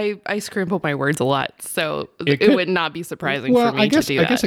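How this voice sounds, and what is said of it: Usual voice. Nothing is said of it.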